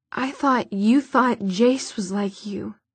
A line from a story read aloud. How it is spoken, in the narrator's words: she said, finally in a choked voice